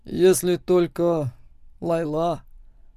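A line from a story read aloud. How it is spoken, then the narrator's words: Hoarse reply. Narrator (Russian): отвечаю хрипло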